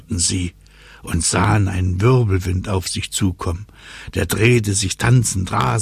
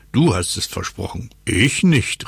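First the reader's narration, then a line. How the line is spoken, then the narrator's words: Smug laughing call. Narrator (German): rief Lotto lachend, weil er sich so clever fühlte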